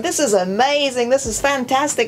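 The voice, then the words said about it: Put-on American Southern accent. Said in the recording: “with this American, like, Southern accent”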